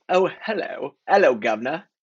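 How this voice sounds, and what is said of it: Put-on British accent. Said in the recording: “Maybe British accent?”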